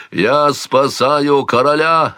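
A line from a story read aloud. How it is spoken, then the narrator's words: Barked. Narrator (Russian): рявкнул Амонт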